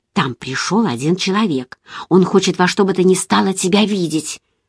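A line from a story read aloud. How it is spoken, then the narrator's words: Whisper. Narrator (Russian): она шепнула мне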